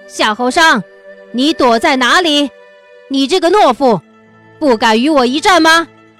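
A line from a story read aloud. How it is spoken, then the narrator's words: Furious loud shout. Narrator (Chinese): 乌木齐已经气急败坏，提升内力，大声道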